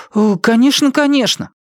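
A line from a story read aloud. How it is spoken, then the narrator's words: Exclamation. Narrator (Russian): воскликнул Брайан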